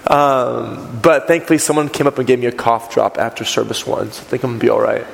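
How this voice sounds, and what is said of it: Raspy voice. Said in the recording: “My voice has been in this raspy range for about 2 or 3 weeks.”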